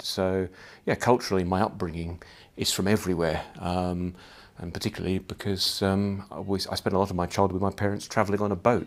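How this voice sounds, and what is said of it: Fairly neutral accent, slight Australian twang. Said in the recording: “I don't have virtually no Scottish accent at all. Some of you will pick up a slight Australian sort of twang in there. So I'm sort of a fairly neutral accent.”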